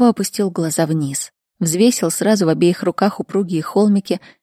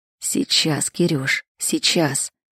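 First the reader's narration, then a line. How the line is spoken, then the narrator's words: Whispered. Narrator (Russian): шептал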